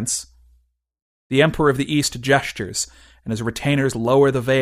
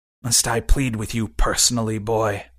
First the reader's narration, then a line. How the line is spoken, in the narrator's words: he says bitterly